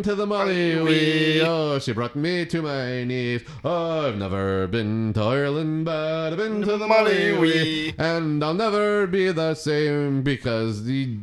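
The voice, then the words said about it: Fake Irish accent while singing. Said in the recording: “my accent is fake ... I've never been to Ireland”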